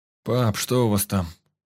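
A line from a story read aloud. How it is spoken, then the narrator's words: Sleepy question. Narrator (Russian): сонным голосом спросил Миша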